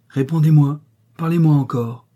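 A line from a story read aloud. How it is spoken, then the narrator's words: Loud imperious cry. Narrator (French): s'écria-t-il d'un ton haut et impérieux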